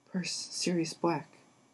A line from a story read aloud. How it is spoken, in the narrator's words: Ron said faintly